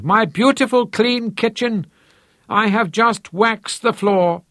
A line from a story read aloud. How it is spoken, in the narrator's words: she wailed